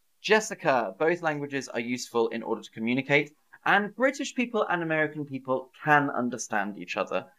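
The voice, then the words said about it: British English accent. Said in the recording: “I'm glad you like my accent. ... I'm from the United Kingdom”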